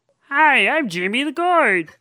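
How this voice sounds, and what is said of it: Cartoon character voice impression. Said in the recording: “This is my Jimmy the Gourd impression. ... That's actually really good.”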